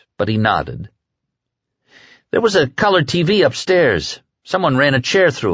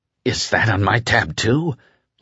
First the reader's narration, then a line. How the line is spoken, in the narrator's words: Larry asked hoarsely